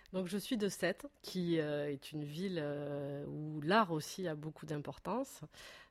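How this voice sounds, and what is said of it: Pleasant regional French accent. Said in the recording (French): “tu as un joli accent”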